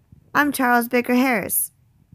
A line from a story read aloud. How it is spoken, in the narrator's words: said